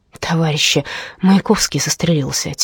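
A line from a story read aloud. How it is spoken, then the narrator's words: Quiet. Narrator (Russian): тихо сказала она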